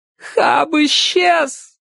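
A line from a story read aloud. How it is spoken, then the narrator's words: Sobbing shout. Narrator (Russian): рыдая, крикнула Чарли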